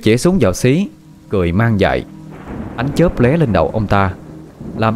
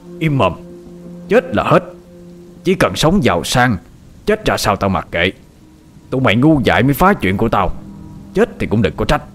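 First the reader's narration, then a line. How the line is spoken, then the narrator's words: Harsh, clipped. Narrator (Vietnamese): Hiếu gằn giọng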